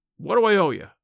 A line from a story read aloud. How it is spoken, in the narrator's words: demanded Tom, harshly